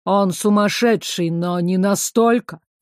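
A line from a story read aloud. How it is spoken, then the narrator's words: Displeased grumble, director. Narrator (Russian): недовольно проворчал директор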